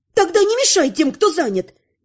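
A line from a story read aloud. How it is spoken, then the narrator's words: Loud yell. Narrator (Russian): заорала я на весь лагерь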